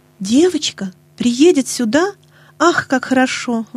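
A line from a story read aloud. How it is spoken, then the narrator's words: Exclamation. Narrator (Russian): воскликнула Нэнси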